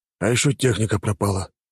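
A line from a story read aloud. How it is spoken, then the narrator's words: Sigh, commander. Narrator (Russian): вздохнул командир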